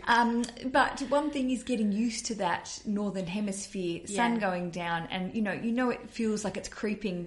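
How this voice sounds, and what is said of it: Australian accent. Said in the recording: “I'm an Aussie. You can hear my accent”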